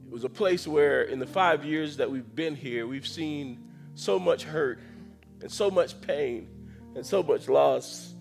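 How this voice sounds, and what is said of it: Emotional, choked-up voice. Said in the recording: “I don't know why I'm getting emotional”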